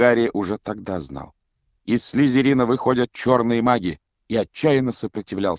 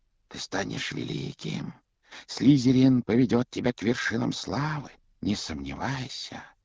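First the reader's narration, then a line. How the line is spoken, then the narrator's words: Whispered in ear. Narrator (Russian): Она шептала на ухо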